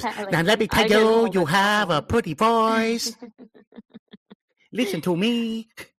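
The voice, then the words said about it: Mock Vietnamese accent. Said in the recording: “I'm impersonating Joe Coy ... That was me impersonating Joe Coy, making fun of Vietnamese voices.”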